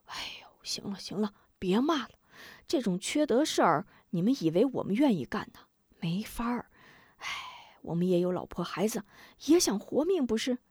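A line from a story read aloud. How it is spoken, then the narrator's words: Sighing. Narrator (Chinese): 一个火药手叹口气道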